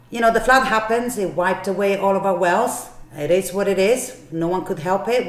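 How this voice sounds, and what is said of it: Speaks with a noticeable accent. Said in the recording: “with my accent, everyone thinks I say the lawyer”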